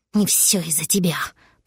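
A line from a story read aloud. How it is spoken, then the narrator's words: Double hissing. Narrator (Russian): прошипел двойник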